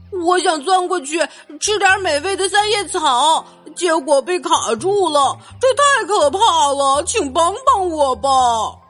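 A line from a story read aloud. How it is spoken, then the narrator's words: Cow shouting. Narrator (Chinese): 奶牛喊道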